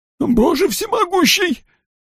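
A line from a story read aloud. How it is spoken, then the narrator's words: Babbling, close to tears. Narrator (Russian): пролепетал он, готовый разрыдаться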